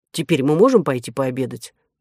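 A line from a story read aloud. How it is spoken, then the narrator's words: Irritated question. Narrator (Russian): раздраженно спросил Дисципон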